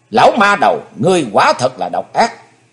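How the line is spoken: Suppressed loud shout. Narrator (Vietnamese): Chí Tôn âm thầm hét lớn

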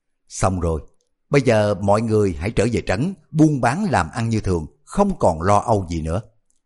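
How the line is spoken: Laughing loudly. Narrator (Vietnamese): Hoàng Dược Sư xoa tay cười lớn nói

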